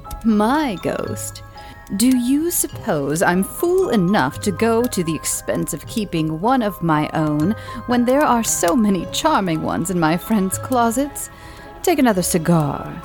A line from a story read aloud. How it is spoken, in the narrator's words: said, with a laugh